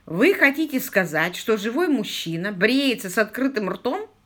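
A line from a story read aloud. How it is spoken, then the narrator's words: Chuckling. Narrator (Russian): он хохотнул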